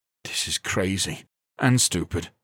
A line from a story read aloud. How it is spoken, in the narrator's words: he muttered to himself